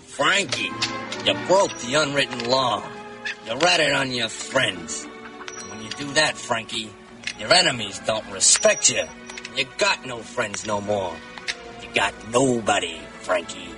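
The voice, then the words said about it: Tough guy character voice. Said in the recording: “his best impersonation of a tough guy”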